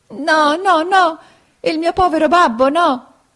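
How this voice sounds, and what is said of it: Desperate shouted cry. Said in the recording (Italian): “gridò Pinocchio con accento disperato”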